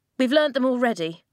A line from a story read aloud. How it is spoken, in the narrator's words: Flint snapped